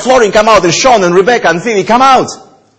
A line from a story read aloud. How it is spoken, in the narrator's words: shout